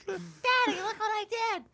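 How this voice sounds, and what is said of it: Imitates a little kid's voice. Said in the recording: “You did that too good. ... that terrible impression I just did.”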